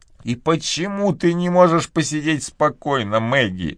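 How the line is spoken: Mother groaning. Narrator (Russian): простонала ее мать

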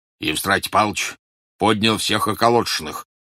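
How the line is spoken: Deep bass voice. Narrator (Russian): пробасил Бурляев

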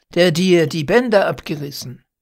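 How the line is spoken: Astonished call. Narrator (German): rief ich erstaunt

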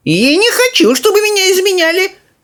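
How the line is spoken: Old woman shouting. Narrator (Russian): закричала бабушка Джорджина

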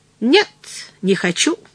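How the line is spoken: Rather angry. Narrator (Russian): ответил я довольно сердито

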